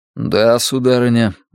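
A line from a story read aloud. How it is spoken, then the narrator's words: Gloomy. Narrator (Russian): мрачно говорю я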